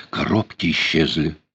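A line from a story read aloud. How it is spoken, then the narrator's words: Whisper. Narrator (Russian): подозрительный, встревоженный взгляд, она шепнула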